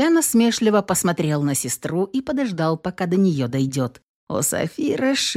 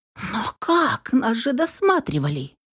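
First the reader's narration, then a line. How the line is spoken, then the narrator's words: Surprised exclamation dropping to whisper. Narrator (Russian): удивленно воскликнула Софи, резко переходя на шепот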